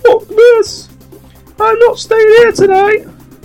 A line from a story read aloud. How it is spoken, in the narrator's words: exclaiming